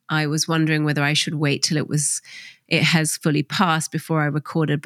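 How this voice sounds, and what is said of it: Slightly nasal, congested voice. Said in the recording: “I have a slight cold, so my voice is a little nasally ... if I have a few sniffles or snuffles”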